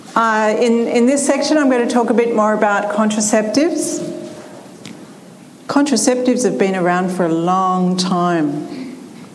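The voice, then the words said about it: Speaks with a noticeable accent. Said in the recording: “Hopefully by now you can understand my accent.”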